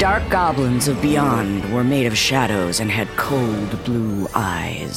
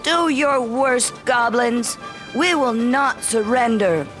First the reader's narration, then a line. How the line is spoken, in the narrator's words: cried